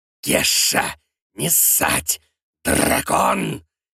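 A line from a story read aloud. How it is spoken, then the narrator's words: Furious wheeze. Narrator (Russian): яростно хрипит питомец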